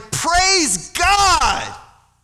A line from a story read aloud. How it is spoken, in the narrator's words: One out of the 10, when he saw that he was healed, he came back to Jesus and he shouted